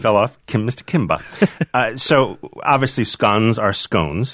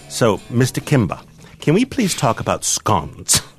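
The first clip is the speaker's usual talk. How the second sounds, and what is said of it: Put-on posh English accent. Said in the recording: “was that a vague English accent there? ... It's not vague. It's my Downton Abbey. ... was good, but then you kind of trailed off.”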